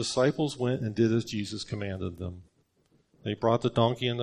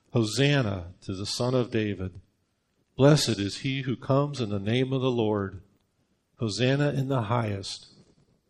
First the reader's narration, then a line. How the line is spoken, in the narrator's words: the multitudes who went before and those followed cried out, saying